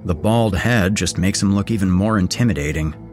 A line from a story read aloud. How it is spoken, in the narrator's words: Daniel said dryly